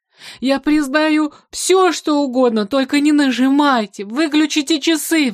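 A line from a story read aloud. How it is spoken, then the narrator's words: Pleading. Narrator (Russian): взмолился Ной Ноевич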